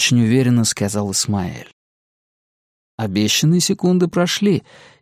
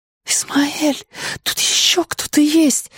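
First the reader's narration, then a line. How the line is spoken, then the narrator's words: Exclamation. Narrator (Russian): воскликнула она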